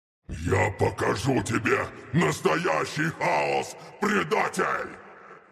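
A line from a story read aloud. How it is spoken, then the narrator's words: Growling. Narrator (Russian): прорычал привратник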